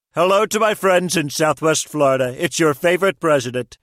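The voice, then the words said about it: Celebrity voice impersonation of a president. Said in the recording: “Celebrity voice impersonation.”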